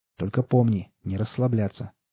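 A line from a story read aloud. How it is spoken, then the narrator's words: Stern. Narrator (Russian): строго сказал ему Седой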